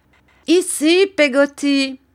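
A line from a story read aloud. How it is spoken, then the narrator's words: Exclaimed. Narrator (French): s'écria Miss Betty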